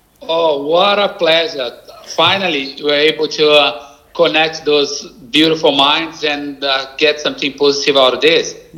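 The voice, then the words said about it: Strong Brazilian accent. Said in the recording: “your strong accent... my Brazilian accent”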